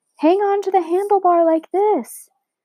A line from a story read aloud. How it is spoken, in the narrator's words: Matt yelled over the noise of the dogs